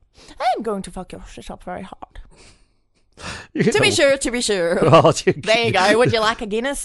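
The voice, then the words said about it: Weak put-on Irish accent. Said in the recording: “you do good accents, but your Irish is not really...”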